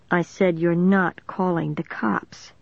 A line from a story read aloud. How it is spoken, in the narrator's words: Dennis replied calmly